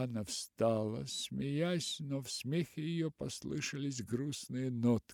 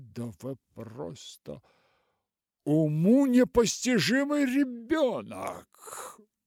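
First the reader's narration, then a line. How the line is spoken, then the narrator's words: Exclaiming. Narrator (Russian): воскликнула она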